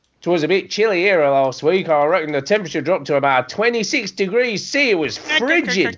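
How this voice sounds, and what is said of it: Put-on Australian accent, not very good. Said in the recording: “the crappy Australian accent”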